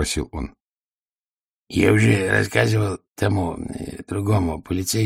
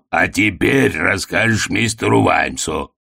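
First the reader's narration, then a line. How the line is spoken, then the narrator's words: Barking. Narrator (Russian): рявкнул Детрит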